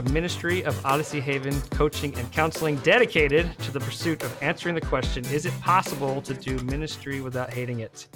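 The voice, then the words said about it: Strong Midwestern American accent. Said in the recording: “I said possible in the most Midwestern accent I've ever had in my life.”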